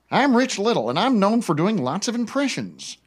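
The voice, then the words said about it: Imitates another person's voice. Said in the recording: “Would a Rich Little impression sound like?”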